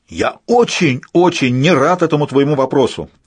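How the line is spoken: Yelling, man. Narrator (Russian): завопил господин Белый

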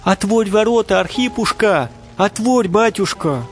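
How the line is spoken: Distant pitying shouts. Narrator (Russian): кричали издали люди, жалеючи

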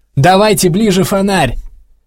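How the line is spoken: Distant shouting. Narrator (Russian): кричали в стороне

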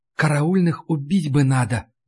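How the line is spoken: Barely audible whisper. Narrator (Russian): почти неслышно прошептала Ларри

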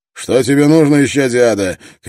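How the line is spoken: Shouting into darkness. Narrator (Russian): крикнул в темноту Строн

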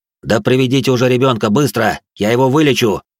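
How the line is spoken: Barking shout. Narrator (Russian): рявкнул я на родителей

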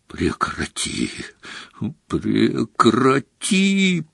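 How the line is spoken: Groaning. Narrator (Russian): простонал Дамблдор

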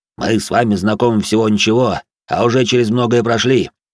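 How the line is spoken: Deep bass voice. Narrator (Russian): пробасил

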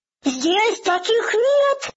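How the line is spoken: Shouted. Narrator (Russian): закричал всякограб

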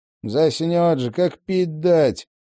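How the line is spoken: Grumbled. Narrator (Russian): ворчал Винни

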